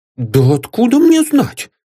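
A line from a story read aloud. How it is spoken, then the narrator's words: Exclamation. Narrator (Russian): воскликнул закройщик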